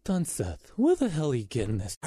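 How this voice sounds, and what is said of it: Imitates another person's voice. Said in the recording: “I don't think that's a good accent... I don't think that's a good impression.”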